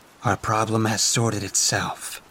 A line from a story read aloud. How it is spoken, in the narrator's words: I muttered